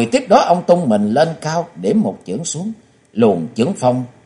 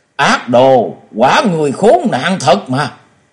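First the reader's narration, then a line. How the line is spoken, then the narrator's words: Loud furious shout. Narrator (Vietnamese): ông ta quát to nói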